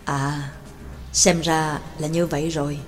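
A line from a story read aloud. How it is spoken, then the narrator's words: Muttering. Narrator (Vietnamese): Giáo sư Phương Tân lẩm bẩm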